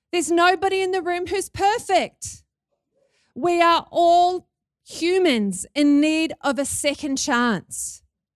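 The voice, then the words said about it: New Zealand accent. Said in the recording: “Can you hear my Kiwi accent?”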